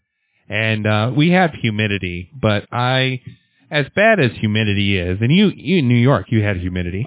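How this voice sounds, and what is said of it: Midwestern American accent. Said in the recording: “I'm from the Midwest. That's why I have this beautiful, sultry voice. That Midwest accent there.”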